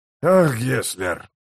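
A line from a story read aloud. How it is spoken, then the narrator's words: Sigh. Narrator (Russian): вздохнул Смычок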